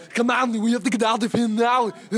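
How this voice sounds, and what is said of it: Imitates another person's voice. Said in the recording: “I can do a good Arnie”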